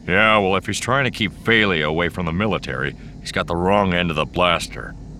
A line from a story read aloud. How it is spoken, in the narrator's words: Han growled